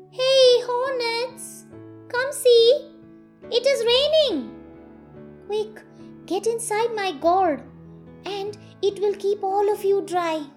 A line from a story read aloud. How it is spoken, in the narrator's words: He called out to the hornets